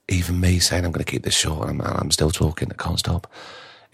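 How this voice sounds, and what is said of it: Tired, failing voice. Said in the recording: “You can hear my voice is going right now... You can tell I'm tired.”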